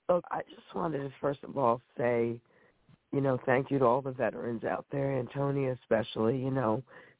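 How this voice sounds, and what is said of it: Sick, under-the-weather voice. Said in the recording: “I'm just under the weather, so please forgive my voice.”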